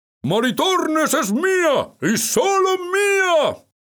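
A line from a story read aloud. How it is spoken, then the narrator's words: Shouted. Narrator (Spanish): gritó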